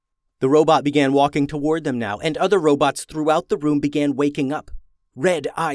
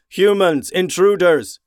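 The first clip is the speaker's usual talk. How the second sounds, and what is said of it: Robotic shouting voice. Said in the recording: “a robot voice shouted”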